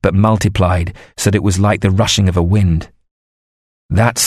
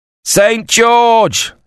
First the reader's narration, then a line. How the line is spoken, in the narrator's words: Someone shouted in the English line